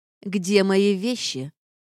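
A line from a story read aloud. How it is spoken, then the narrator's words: Menacing question. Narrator (Russian): угрожающим тоном, хорошо отработанным в схватках в общежитии, спросила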